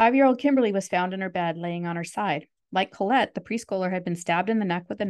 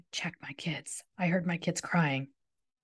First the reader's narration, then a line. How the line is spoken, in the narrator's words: he whispered